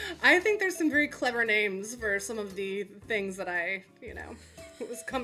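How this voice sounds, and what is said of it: Usual voice. Nothing is said of it.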